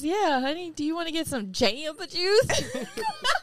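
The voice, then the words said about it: Imitated country accent. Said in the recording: “like a country accent would come out every once in a while ... is that an Arizona accent?”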